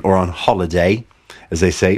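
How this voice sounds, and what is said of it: Bad imitation British accent. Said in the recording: “Bad British accent.”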